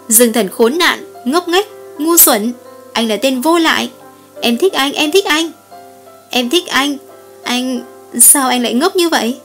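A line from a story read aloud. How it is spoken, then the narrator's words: Sudden loud scream. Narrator (Vietnamese): Lâm Nhược Khê đột nhiên hét thật to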